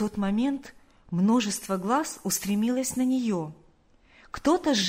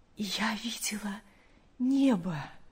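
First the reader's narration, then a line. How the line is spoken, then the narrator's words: Weak but joyful mother. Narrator (Russian): мать, желая передать каждому частичку своего счастья, слабым голосом, но с огромной радостью сказала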